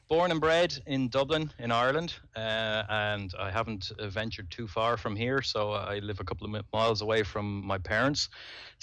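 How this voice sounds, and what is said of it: Dublin Irish accent, not the traditional one. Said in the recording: “you do have that, that accent there ... I have a certain twang ... I don't have you know the traditional Irish accent”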